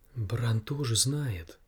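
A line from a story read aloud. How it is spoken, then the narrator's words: Whisper. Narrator (Russian): прошептала она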